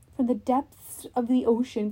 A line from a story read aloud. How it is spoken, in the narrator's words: Kronos laughed so loudly the whole ship trembled